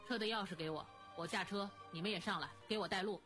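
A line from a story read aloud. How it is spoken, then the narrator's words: Flat indifferent tone. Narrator (Chinese): 慕容思炫淡淡地说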